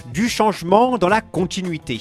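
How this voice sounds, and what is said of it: Imitates another person's voice, badly. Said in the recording (French): “Mauvaise imitation”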